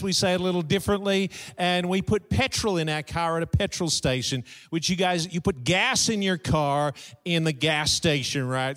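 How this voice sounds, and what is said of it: Australian accent. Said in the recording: “I have a southern accent. And I do. It's southern hemisphere. Down under in Australia”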